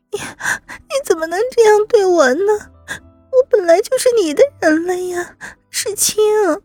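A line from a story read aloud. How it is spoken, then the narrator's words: Anxious, tearful. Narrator (Chinese): 吕菲菲一听急了…只能又开始哭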